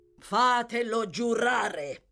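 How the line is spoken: Magistrate's surly growl. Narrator (Italian): ringhiò il magistrato assai di mala grazia

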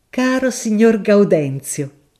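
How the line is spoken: Sudden exclamation. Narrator (Italian): esclamò all'improvviso il professore

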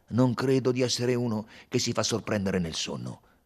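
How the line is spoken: Menacing tone. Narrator (Italian): continuò in tono minaccioso

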